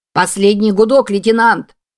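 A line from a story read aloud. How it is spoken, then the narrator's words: Helmsman shouting. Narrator (Russian): закричал рулевой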